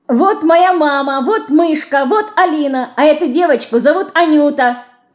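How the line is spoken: Cheerful shout. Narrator (Russian): Весело кричала она

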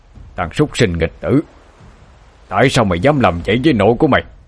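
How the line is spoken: Angry shout. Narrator (Vietnamese): Cậu hai quát lên

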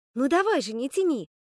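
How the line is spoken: Impatient exclamation. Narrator (Russian): нетерпеливо воскликнула Скарлетт

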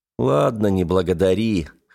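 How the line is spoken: Smirking grunt. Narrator (Russian): хмыкнул я

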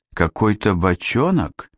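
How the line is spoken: Uncertain question. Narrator (Russian): неуверенно спросила Яна

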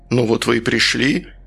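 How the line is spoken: Calm, unruffled. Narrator (Russian): сказал он невозмутимым тоном

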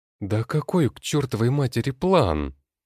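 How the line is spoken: Exclamation. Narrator (Russian): Воскликнула Юля

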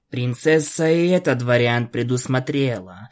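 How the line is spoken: Upset sigh. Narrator (Russian): расстроенно вздохнул Спайк

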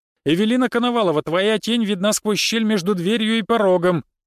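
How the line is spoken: Booming loud. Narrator (Russian): Так же громко прогремел я

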